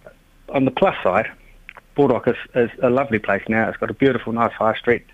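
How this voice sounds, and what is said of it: New Zealand accent. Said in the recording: “the accent, I've got a brother-in-law who's a Kiwi ... via New Zealand”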